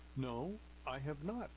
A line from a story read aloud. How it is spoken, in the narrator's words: replied Carly